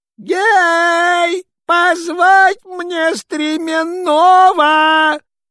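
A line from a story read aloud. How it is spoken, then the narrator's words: Commanding shout. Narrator (Russian): Царь посыльным закричал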